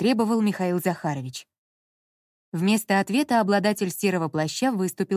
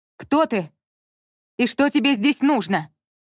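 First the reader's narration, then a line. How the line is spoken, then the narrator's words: Female shout. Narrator (Russian): крикнула Анна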